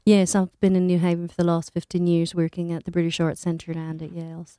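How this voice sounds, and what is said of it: Mixed British Isles accent over American. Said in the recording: “so it's your California accent then? ... that's the underlying bit, but I guess I would call it British Isles mix. I've decided I've created a new accent.”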